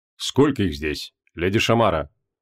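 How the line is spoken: Calm question. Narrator (Russian): спокойно спросил лорд Белькисир

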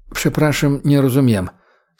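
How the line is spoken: Quiet question. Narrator (Russian): тихо спросил Яцек

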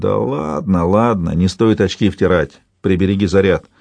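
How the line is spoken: Mutter. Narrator (Russian): Кто-то бормочет

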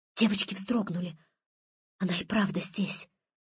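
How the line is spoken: Breathless gasp. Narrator (Russian): выдохнула Ольга

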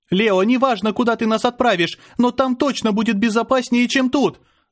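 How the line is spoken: Shouting. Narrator (Russian): закричала Мира

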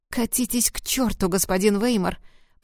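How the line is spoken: Hiss. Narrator (Russian): Прошипела она

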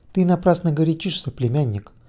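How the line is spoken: Completely calm voice. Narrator (Russian): голос звучал совершенно спокойно

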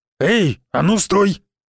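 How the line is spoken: Big man barking. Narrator (Russian): гаркнул здоровяк

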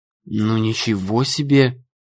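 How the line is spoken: Forced out. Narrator (Russian): выдавила Нелли

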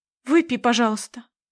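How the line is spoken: Trembling voice. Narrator (Russian): дрожащим голосом прошу

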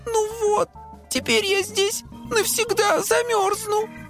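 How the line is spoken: Fixie sobbing. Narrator (Russian): всхлипнул фиксик

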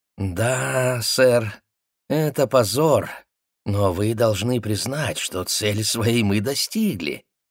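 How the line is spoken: Oily, ingratiating purr. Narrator (Russian): Гудман со своей елейной улыбкой вкрадчиво замурлыкал

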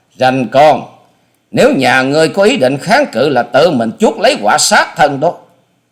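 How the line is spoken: Loud shout. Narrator (Vietnamese): Hà Xà Tiên Tử hét to

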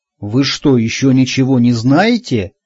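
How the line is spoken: Surprised exclamation. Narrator (Russian): удивленно воскликнул он

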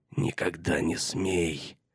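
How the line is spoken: Dark, eerie hiss. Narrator (Russian): Прошипела она черным голосом, более похожим на голос какого-нибудь ее колдовского прислужника, чем на ее собственный

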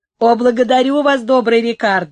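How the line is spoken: Joyful laughing exclamation. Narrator (Russian): вскричал Клименто, засмеявшись и радостно

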